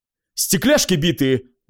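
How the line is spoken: Exclaimed. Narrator (Russian): воскликнул Фолсом

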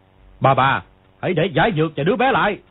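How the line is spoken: Barking. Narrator (Vietnamese): người kia quát

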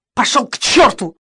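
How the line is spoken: Snapping back. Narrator (Russian): огрызнулся Эрнест

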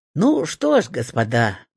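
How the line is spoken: Cheerful declaration. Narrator (Russian): бодро заявил

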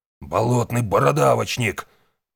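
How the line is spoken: Growling. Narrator (Russian): прорычал Валу

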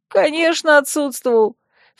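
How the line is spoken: Laughing admission. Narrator (Russian): все еще смеясь призналась белка

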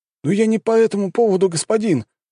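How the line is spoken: Pleading. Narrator (Russian): взмолился боец

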